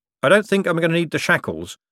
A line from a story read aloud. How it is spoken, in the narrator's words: said Moist quickly